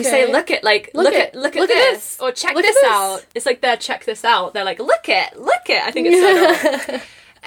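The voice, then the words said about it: English accent. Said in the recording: “with an English accent, everything is like water, butter”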